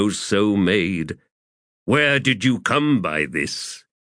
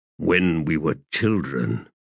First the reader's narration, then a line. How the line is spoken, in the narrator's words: he muttered